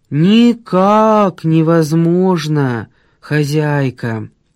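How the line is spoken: Dejected drawl. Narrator (Russian): протянул один уныло

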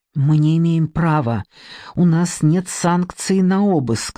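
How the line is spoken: Hissing. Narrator (Russian): зашипела она

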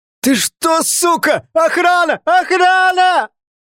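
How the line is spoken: Shouting. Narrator (Russian): Закричал

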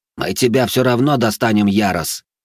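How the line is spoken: Angry hiss. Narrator (Russian): зло прошипел в ответ Карлос

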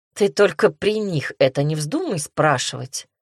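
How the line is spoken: Snorting hybrid creature. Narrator (Russian): хмыкнул гибрид

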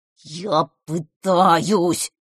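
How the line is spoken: Growling toad. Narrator (Russian): прорычал жаба

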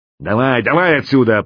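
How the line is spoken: Sharp shout. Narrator (Russian): прикрикнул слон

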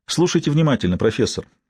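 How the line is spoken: Quiet female killer. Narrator (Russian): тихо произнесла убийца

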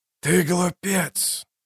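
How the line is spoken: Hoarse. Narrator (Russian): хриплые слова

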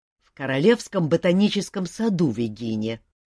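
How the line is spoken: Grumbling. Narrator (Russian): проворчал Шут

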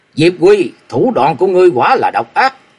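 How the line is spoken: Cold snort, murderous roar. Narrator (Vietnamese): Long Môn cư sĩ hừ lạnh một tiếng, hai mắt nổi sát cơ, gầm lớn

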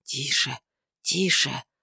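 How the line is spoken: Whisper. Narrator (Russian): прошептал он

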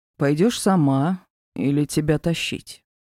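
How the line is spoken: Deceptively calm. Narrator (Russian): Обманчиво спокойным тоном уточнил

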